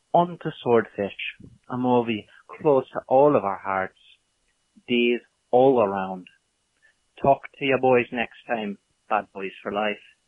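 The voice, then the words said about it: Very convincing put-on accent. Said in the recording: “That's not even an accent. That's like his native tongue. ... that accent is the most accurate accent I've ever heard on this podcast.”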